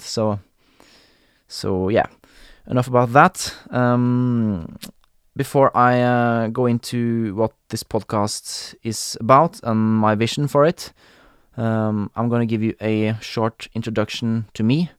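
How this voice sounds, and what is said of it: Stereotypical Norwegian Scandinavian accent. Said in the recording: “they find my accent a bit funny. I think I have a very stereotypical Norwegian Scandinavian accent”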